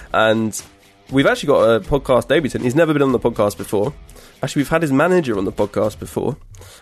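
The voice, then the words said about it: Congested voice from a cold. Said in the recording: “if you don't recognise my voice that well, it's because I've got a cold.”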